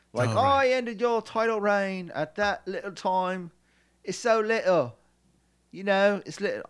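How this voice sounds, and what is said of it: Put-on British accent. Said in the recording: “I know I'm doing a British accent, but ... I have a limited resources of voices.”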